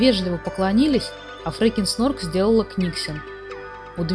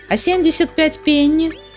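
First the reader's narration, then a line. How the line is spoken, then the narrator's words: Yelled. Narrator (Russian): завопил Сниф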